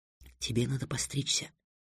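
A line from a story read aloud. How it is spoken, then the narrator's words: Whisper in ear. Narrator (Russian): шепнула Триксу на ухо Тиана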